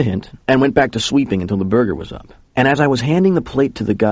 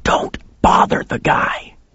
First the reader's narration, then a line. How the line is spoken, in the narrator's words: he hissed at me